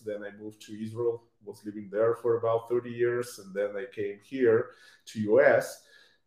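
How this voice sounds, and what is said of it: Lithuanian-accented English. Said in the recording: “judging by your accent, I would say you're from over in Europe originally too ... I was born in Lithuania ... my accent I cannot get rid of. I tried hard.”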